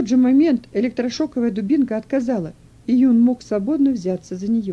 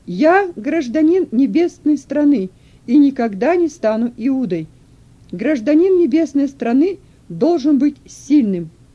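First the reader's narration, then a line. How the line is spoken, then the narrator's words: Loud shout. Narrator (Russian): Юн снова громко закричал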